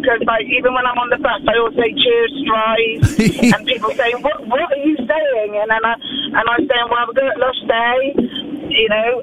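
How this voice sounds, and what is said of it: West Country Bristol accent. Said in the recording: “I'm from the West Country ... everybody sort of picks up on my accent ... once I go back into Bristol”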